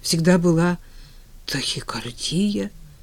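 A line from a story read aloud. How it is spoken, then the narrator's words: Confused mutter. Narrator (Russian): растерянно пробормотал Женя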